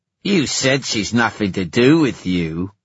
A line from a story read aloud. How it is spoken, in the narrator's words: Erek sneered